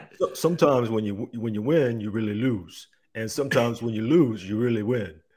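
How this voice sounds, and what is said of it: Rocky Balboa voice impression. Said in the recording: “can you give us a little Rocky Balboa? Can you give a little accent going on there? ... Not bad. ... That's not surprisingly not bad.”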